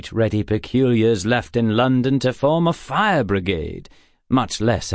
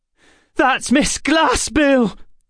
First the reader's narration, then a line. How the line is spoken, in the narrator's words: Emma cried